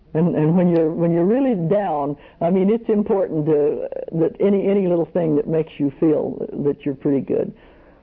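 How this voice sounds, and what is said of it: Oklahoma accent. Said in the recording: “I can tell from your accent you're an Okie.”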